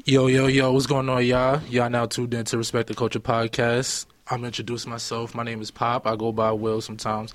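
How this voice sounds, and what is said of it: Slightly raspy voice. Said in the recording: “Excuse my voice, though. It might sound a little raspy.”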